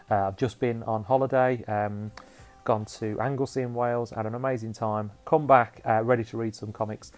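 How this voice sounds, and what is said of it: Sniffly voice with a cold. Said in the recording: “I've got a little bit of a cold ... if I'm sniffy and snotty”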